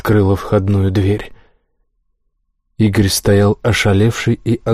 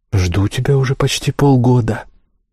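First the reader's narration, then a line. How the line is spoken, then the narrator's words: Calm, knowing. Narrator (Russian): сказала она так спокойно, как будто знала, что он появится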